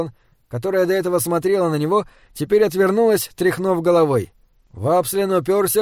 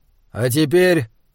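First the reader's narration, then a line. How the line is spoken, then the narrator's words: Cold. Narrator (Russian): холодно сказал Хорза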